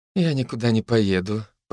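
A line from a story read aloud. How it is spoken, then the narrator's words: Mumbled. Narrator (Russian): пробормотала Лера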